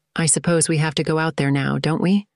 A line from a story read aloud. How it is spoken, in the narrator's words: Catherine asked